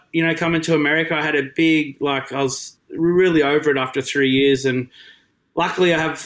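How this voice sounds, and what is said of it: Australian accent. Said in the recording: “I love the Pies and love the accent too. We speak Australian at home”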